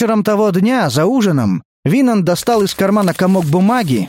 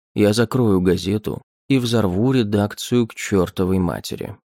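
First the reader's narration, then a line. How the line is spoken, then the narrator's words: Calm reply. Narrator (Russian): спокойно ответил ему Гейл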